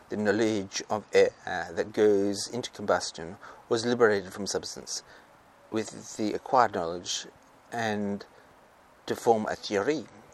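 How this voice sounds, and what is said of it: Attempted French accent, sounding Transylvanian. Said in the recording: “I'm going to try and do a French accent, to link, sound a bit like a Transylvanian”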